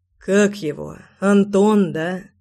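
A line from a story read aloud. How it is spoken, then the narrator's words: Beast's hoarse rasp. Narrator (Russian): прохрипел зверь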